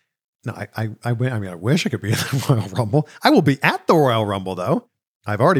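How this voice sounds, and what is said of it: Usual voice. Nothing is said of it.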